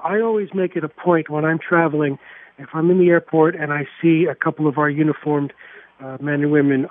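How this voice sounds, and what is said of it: Bronx New York accent. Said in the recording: “with a Bronx accent no less”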